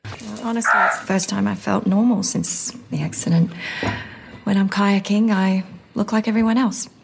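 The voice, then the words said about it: Australian accent. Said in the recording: “they're going to be talking with an Australian accent... I've never heard him do Australian”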